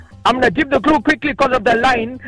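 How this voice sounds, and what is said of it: Shouting over a bad phone line. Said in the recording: “I'm shouting”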